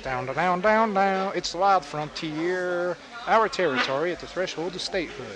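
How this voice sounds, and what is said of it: Put-on Texas accent. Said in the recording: “I don't know why I'm doing a Texas accent.”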